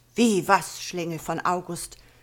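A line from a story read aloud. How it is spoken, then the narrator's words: Sudden roar, trembling with rage. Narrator (German): brüllt auf einmal eine vor Zorn bebende Stimme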